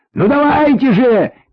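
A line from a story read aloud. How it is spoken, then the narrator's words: Shouting in pouring rain. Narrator (Russian): кричал под проливным дождем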